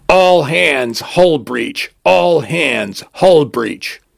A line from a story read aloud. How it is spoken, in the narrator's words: booms out through the station, accompanied by a cacophony of klaxons